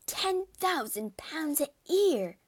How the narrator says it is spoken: she cried, all her former dislike of Darcy vanishing in an instant

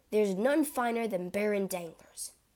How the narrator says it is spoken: Albert replied

